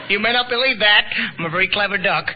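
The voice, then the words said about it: Donald Duck voice. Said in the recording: “This is Donald Duck impersonating”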